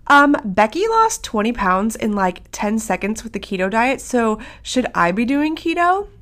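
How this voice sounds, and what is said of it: Put-on client questioning voice. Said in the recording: “put on my client question voice”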